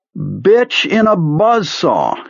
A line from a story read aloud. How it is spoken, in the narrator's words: he cried